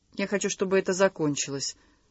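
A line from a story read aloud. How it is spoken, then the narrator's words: Calm. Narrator (Russian): спокойно сказал Бабицкий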